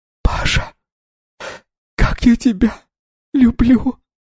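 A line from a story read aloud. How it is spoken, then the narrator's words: Barely audible sobbing whisper. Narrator (Russian): Шепот еле слышно было из-за всхлипов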